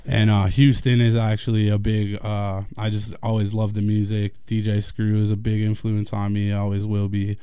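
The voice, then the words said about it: Speaks with a slight Southern twang. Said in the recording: “I talk like this... that's where I get the twang from a little bit”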